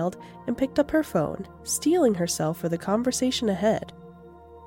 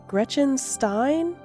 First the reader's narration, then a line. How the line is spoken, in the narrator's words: Tilly said nervously